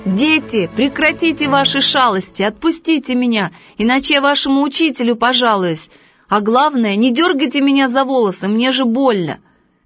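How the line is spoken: Shouting. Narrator (Russian): Он закричал

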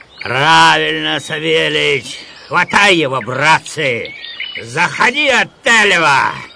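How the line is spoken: Student yelling. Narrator (Russian): Студент завопил

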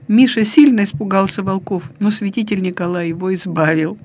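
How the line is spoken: Laughing, talking. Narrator (Russian): смеялись и говорили

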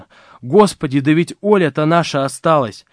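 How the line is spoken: Agitated calling. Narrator (Russian): Вера Ивановна позвала взволнованным тоном

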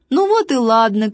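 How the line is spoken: Shouting, laughing. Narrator (Russian): крикнул важный, засмеялся

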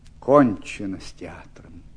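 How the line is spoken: Sighing, subdued. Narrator (Russian): вздохнув, сказал, когда немного прошел стыд

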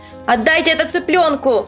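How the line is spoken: Shout. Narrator (Russian): крикнула

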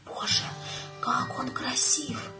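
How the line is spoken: Whispered. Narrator (Russian): шепнула

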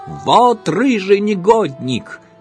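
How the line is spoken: Shouting caretaker. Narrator (Russian): кричал дворник

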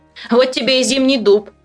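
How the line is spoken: Giggled. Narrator (Russian): хихикнул

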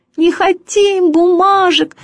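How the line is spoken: Squeaky chorus. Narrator (Russian): пищали все

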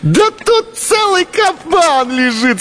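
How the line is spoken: Cried out. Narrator (Russian): скрикнула она

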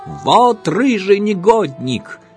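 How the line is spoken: Shouting caretaker. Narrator (Russian): кричал дворник

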